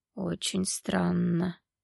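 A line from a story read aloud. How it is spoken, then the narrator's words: Quiet creaky voice. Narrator (Russian): тихо проговорил скрипучим голосом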